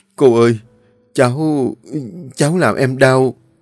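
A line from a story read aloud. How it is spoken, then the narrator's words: Trembling, frightened voice. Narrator (Vietnamese): mặt nó tái xám, nó luống cuống run rẩy nói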